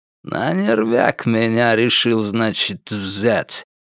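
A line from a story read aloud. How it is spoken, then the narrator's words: Through gritted teeth. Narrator (Russian): процедил Кайрат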